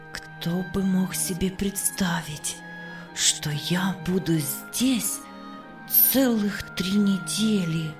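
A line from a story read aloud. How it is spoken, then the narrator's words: Contented whisper. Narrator (Russian): С наслаждением шептала Эстер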